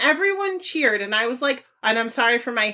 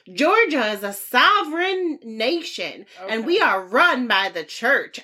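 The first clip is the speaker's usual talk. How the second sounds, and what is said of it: Exaggerated Southern accent. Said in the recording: “my heinous southern accent ... the lady just sounded like that”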